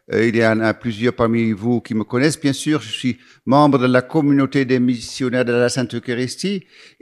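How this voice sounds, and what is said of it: Slight Dutch accent in French. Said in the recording (French): “un tout petit accent, ça c'est vrai, l'accent il est là, parce que je suis hollandais d'origine”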